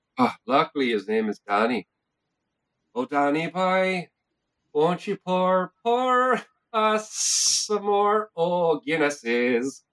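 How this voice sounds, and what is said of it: Put-on Irish lilt. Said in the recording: “You can tell we're Irish. Because we have this wonderful lilt and say O in front of words.”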